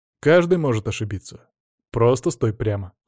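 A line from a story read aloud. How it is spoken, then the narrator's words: Calm answer. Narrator (Russian): спокойно ответил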